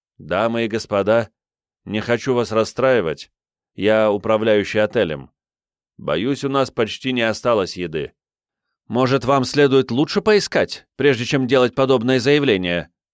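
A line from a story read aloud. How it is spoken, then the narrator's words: Loud mother. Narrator (Russian): громко сказала мать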